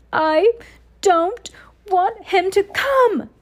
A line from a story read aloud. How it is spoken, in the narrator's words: Dudley yelled between huge pretend sobs